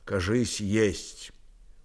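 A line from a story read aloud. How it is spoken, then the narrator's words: Undertone. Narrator (Russian): он вполголоса сказал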